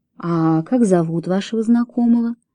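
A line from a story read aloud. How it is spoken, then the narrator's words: Quiet question. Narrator (Russian): тихо спросил Фрэнсис Дэви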